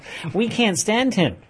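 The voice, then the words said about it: Put-on American accent. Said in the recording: “Notice the authentic American accent I've developed for that one”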